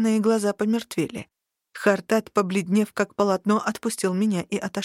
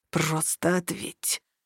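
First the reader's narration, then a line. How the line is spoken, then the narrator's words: Low muffled growl. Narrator (Russian): прорычал Тарухан глухо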